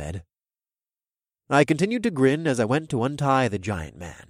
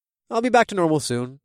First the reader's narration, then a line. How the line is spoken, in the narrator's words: I said in a casual voice